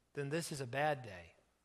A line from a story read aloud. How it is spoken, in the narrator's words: Wendy said quietly